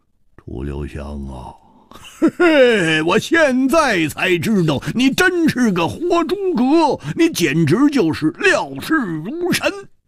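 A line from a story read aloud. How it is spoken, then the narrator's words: Wry, bitter smile. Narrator (Chinese): 胡铁花苦笑着说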